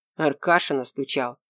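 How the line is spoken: Knowing snort. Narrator (Russian): понимающе хмыкнул парень

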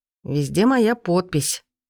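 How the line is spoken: Dragon's angry hiss. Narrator (Russian): зло процедил дракон

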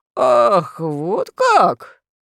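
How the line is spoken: Exclaiming. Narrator (Russian): воскликнул король Барбедо

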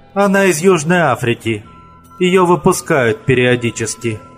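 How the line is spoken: Sighed. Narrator (Russian): вздохнула женщина

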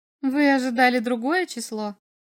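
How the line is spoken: Mocking question. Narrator (Russian): спросила она насмешливо

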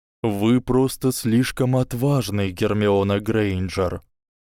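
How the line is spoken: Soft but clear. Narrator (Russian): мягко, но отчетливо сказал директор

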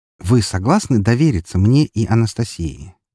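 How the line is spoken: Peaceable tone. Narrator (Russian): спросил максимально миролюбивым тоном

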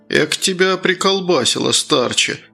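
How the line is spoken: Sigh. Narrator (Russian): вздохнул Круглов

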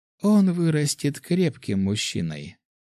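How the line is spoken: Calm. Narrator (Russian): спокойно сказала Наталья

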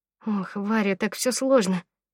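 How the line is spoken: Sighing. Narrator (Russian): вздохнула я

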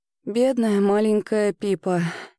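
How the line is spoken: Heavy sigh. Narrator (Russian): тяжело вздохнула мама

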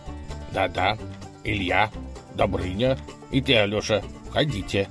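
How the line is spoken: Stern command. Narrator (Russian): повелел он, грозно

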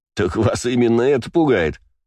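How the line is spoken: Laughing. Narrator (Russian): засмеялся я

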